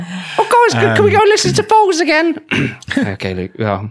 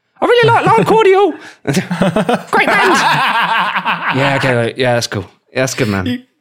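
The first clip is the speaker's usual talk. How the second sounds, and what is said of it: Imitates another person's voice. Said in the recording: “You've got my voice down now to a T”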